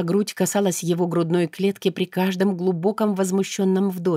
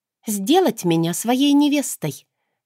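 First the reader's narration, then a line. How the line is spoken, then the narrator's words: Snide reply. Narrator (Russian): отозвалась ехидно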